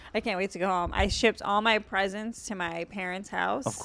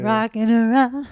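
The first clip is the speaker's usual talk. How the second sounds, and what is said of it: Sings like a crazy aunt. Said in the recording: “You sound like a crazy aunt.”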